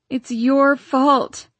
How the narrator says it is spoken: she moaned

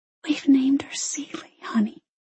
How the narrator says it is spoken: she whispered

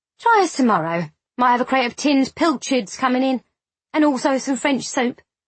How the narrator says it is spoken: said the wife in a cheerful tone

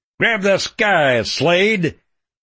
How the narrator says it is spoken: I barked the order at him

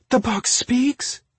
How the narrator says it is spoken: Marina squeaked

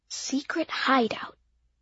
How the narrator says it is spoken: whispered

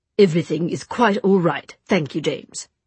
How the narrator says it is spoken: said Gabriel, his tone clipped

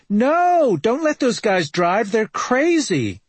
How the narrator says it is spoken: Partygoers are screaming

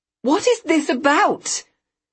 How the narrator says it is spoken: I heard myself screech

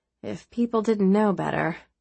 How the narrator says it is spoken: Rosemary murmured

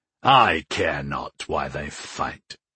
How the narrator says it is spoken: grunted Sire Raylan

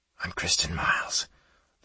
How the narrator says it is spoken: the woman spoke in a hurried whisper

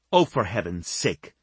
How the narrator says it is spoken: Sasha snapped

